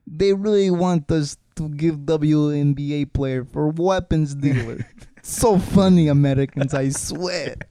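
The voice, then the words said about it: Put-on Russian accent. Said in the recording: “my Russian accent ... You got a better one.”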